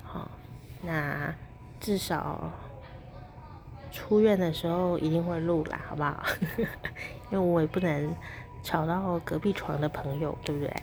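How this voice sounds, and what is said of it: Quiet, hushed speaking. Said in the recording (Chinese): “录个小声的 podcast”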